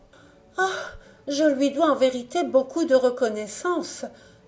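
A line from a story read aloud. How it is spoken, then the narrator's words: Bird exclaiming with a sigh. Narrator (French): s'écria en soupirant l'oiseau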